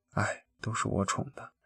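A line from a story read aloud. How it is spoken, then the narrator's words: Sighing. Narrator (Chinese): 老郭叹了一口气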